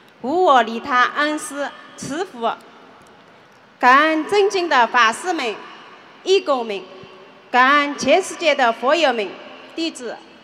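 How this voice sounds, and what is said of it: Slight Shaoxing regional accent. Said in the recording (Chinese): “哪里的？是哪里来的？... 绍兴的。... 啊，怪不得讲话哦。... 有点口音，很好听，家乡味。”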